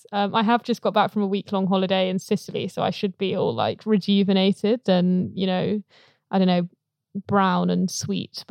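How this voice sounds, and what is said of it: Slightly croaky, throaty voice. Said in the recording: “I've got a little thing in my throat... I feel like I've got something going on back here... I sound weird... if we're croaking at you”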